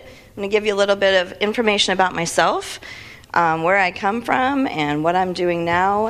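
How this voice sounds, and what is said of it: Slightly scratchy voice. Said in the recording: “my voice is a little scratchy this morning”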